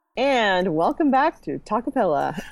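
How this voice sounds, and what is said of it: Polished radio host voice. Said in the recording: “Such a good radio voice.”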